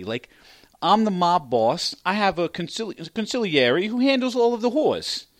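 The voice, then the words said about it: Put-on New York accent. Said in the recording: “that was a weird accent. ... That was weird. ... I spent the week up in New York. ... that's the way I used to talk.”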